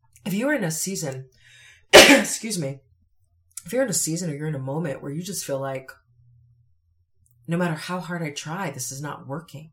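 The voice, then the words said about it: Strained, failing voice. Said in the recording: “I need to set my teeth for a second because my voice is going.”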